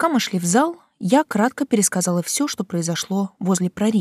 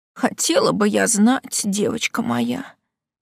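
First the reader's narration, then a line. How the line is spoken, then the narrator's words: Sighing aunt. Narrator (Russian): вздохнула тетушка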